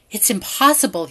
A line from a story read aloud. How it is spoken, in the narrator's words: whispers